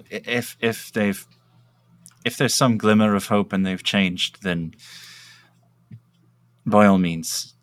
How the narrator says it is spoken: sighs and kind of smacks his lip, and says, uh

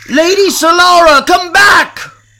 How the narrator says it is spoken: Riffin yelled

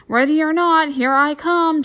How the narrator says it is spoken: Jessie shouted

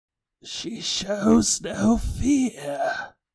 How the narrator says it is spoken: he said, his voice so raspy I wondered if his vocal cords were made out of tissue paper

